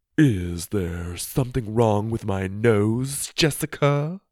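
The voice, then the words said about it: Low, dramatic voice. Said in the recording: “she asked in a low, dramatic voice.”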